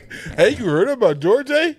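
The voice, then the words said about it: Put-on Canadian accent. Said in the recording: “That's the same accent ... It's the same accent, different tone ... That's what they do in Canada, eh?”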